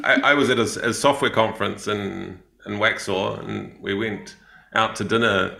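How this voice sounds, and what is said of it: New Zealand accent. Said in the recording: “maybe it's the Kiwi accent doesn't translate so well”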